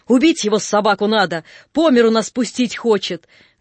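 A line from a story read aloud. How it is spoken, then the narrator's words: Loud shouting. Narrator (Russian): Громче всех кричал Алабабин турок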